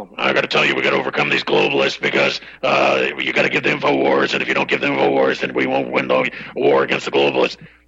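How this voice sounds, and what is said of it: Imitates another person's voice. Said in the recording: “to do a bad impression”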